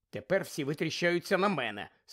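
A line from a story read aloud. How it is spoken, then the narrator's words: Angry grumble. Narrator (Ukrainian): сердито буркнула Герміона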